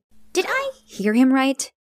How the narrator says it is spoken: I gasped

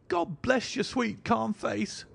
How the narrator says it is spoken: she cried with an hysterical sob

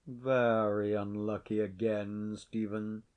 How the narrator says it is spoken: said Sir John, without altering his voice a single note

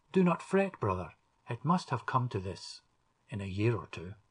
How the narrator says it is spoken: Sir Roger smiled kindly on him and said

